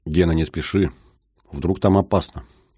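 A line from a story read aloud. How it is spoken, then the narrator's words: Urgent whisper. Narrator (Russian): зашептала Сэнди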